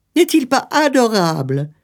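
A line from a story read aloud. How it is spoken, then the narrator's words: Exclaiming woman. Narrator (French): s'écria-t-elle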